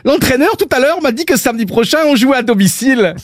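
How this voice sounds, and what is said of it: Put-on Belgian French accent. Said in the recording (French): “Il est pas mal, mon accent belge! ... avait un petit début d'accent belge”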